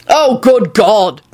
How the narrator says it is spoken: Quentin shouted

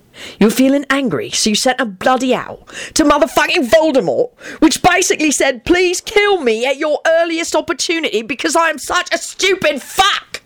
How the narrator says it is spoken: he screamed

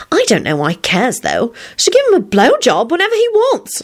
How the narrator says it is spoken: Solange sang out cheerfully

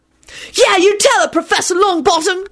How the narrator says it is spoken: Timothy hollered out angrily

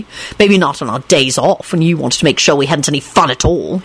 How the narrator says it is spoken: he finished sulkily

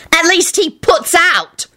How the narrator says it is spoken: Rosie screeched

